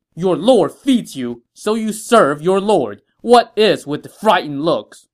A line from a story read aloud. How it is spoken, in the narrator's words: Xu Sheng shouted